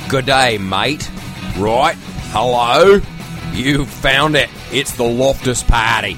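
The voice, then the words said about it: Put-on Australian accent. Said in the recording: “That was my Australian accent ... It's pretty good, actually. ... It's not horrible. You could do worse.”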